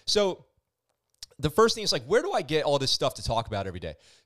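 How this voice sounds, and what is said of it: Strained, fading voice. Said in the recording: “I feel like I'm losing my voice a little bit too.”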